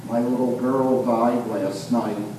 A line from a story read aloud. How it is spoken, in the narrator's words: in a quiet voice said